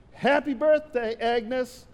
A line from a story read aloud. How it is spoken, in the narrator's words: we all screamed